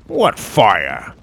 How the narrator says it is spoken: Tim croaked

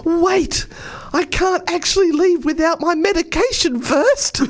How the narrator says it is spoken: Wayne groaned

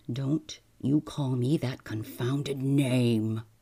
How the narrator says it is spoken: growled MacFarlane

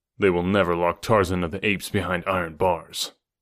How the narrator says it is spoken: replied grimly

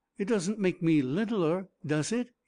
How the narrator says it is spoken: he asked anxiously, and then with a terrible misgiving

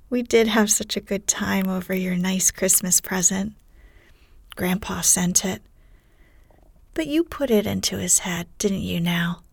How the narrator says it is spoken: That put Jo at her ease, and she laughed too, as she said in her heartiest way

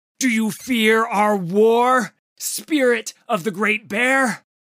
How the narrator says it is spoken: Udyr screamed at the monster

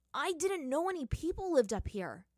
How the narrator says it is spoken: Aang exclaimed, relishing in a bit of his old childish enthusiasm

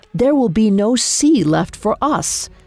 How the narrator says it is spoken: His face a bluster of rage, he roared

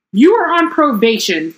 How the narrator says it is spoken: shrieked Professor Umbridge

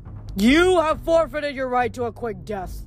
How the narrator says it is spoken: the giant snarled

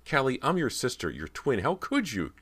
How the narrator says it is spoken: Cody shrieked, so frightened she didn't recognize her own voice

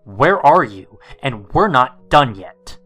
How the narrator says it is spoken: All of them in my voice, screaming

